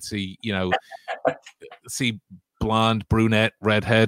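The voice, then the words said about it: Poor put-on American accent. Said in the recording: “my American accent there as well. I'm very well aware that it's terrible”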